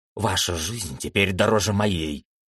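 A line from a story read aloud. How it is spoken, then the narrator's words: Whisper. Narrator (Russian): прошептал он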